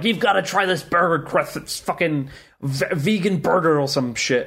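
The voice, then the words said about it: Rough put-on New York accent. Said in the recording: “reminds her of her growing up in New York by the sounds of that accent ... I have got a lot of work to do on naming ... accent.”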